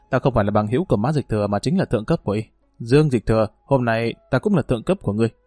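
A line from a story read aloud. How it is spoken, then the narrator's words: Serious tone. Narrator (Vietnamese): nghiêm túc nói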